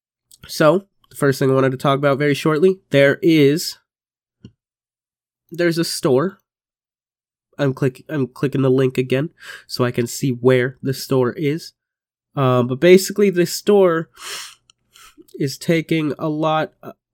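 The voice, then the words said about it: Congested, blocked-nose voice. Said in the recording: “can't fucking breathe through my nose ... I can breathe through my left nostril and not my right ... I hope my voice sounds tolerable. I hope it doesn't sound too bad.”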